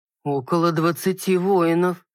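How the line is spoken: Stunned breathless. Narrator (Russian): ошеломленно выдохнул страж

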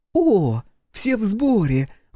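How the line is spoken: Exclaiming. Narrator (Russian): воскликнула богиня

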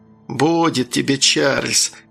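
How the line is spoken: Carefree chuckle, old man. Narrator (Russian): хохотнул беззаботно старик

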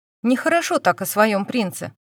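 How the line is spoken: Joking tone. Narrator (Russian): заметила Динара шутливым тоном

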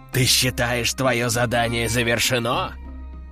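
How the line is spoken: Growling female warrior. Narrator (Russian): прорычала боевая девушка

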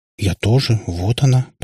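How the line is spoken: Muttering. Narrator (Russian): пробормотала Катя

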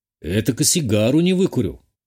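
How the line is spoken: Gloomy pronouncement. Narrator (Russian): мрачно изрек я

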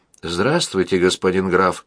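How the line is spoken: Calm. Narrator (Russian): спокойно промолвил он

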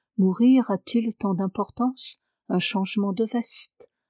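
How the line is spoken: Imagined murmur. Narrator (French): Il me semblait entendre la voix de Duncan murmurer

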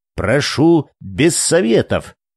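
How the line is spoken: Angry teacher cutting off. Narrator (Russian): сердито оборвал ее учитель

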